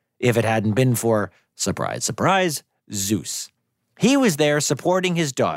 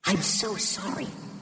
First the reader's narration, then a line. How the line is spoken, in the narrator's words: whispered